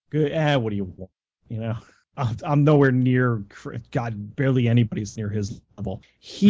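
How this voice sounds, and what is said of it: Usual voice. Nothing is said of it.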